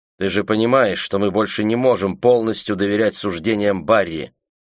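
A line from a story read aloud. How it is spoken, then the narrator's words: Plain. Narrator (Russian): сказала она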